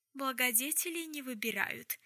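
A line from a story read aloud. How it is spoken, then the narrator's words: Cheerful grin. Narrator (Russian): радостно ухмыльнулся Магнус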